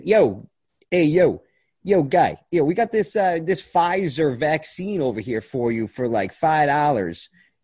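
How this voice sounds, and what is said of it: Put-on Philadelphia accent. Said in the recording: “should I do the Philly accent? ... Why are you turning Canadian? ... That's the Philadelphia accent, buddy.”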